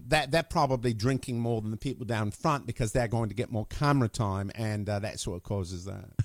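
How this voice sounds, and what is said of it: Natural British accent. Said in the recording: “I know it's a British accent. It's actually the way I talk.”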